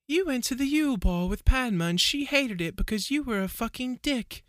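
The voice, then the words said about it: Dreamy Luna Lovegood voice. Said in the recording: “do a fucking Padma voice, or not Padma, Luna voice ... Very dreamy.”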